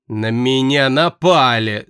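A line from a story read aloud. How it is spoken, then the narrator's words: Angry mocking mimicry. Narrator (Russian): зло передразнил он меня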